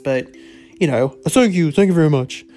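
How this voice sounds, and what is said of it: Deliberately bad Elvis impression. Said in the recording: “worst Elvis impression ... I didn't intend it to be accurate”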